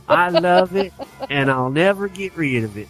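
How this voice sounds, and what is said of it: Put-on Southern US accent. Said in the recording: “I don't know why I'm giving her a southern accent.”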